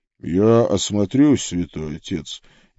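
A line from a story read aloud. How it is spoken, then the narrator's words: Quiet. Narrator (Russian): негромко сказал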